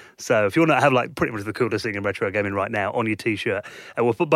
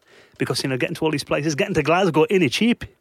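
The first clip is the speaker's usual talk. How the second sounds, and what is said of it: Bad mixed Geordie-Scottish-Welsh accent. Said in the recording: “the worst accent I've ever heard ... a cross between Geordie, Scottish, and maybe a bit of Welsh thrown in there as well”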